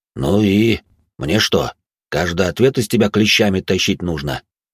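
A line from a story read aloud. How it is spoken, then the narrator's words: Displeased voice. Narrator (Russian): Недовольным голосом произнес управляющий тюрьмой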